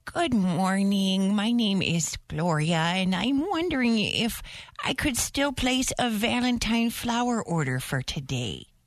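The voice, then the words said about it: Old lady voice. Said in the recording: “do an old lady voice”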